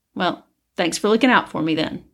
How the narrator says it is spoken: he said

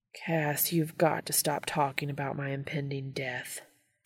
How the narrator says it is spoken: Dean grumbles

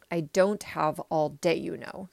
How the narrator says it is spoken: said Ralph in a disgusted tone of voice

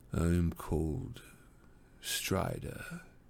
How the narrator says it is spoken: he said in a low voice

